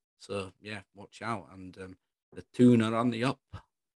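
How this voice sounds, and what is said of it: Put-on Scottish accent. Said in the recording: “Don't know what accent that was. ... That was Scottish.”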